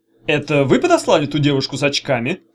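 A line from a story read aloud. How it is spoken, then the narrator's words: Plain. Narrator (Russian): спросил Чемоданов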